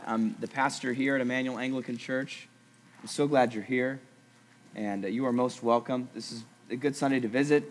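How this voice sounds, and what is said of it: Scratchy voice. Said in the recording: “My voice is a little scratchy, recovering from a cold”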